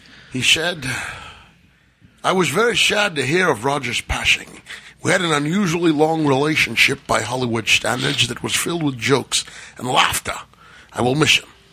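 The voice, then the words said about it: Sean Connery impression, Scottish accent. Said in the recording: “In the accent, please. ... That's a good accent. ... it's a good Sean Connery.”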